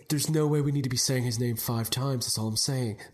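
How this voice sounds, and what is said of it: Poor imitation of another person's voice. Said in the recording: “terrible impression.”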